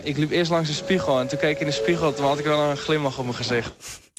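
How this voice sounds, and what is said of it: West Frisian Dutch accent. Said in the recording (Dutch): “West-Friese accent”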